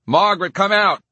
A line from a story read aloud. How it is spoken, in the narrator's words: Cornelius yelled